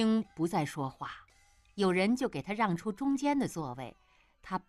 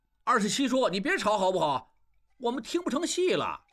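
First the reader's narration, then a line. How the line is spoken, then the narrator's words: Clamoring crowd. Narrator (Chinese): 众人嚷嚷着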